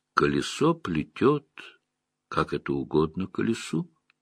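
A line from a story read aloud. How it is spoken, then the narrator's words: Calm reply. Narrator (Russian): спокойно отозвалась Верн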